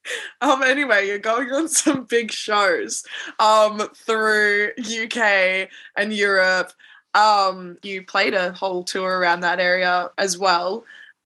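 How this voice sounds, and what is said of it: Australian accent. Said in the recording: “you sound Australian for sure ... I love the Australian accent though.”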